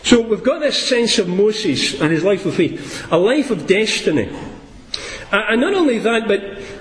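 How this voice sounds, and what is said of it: Speaks with a noticeable accent. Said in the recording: “that funny accent”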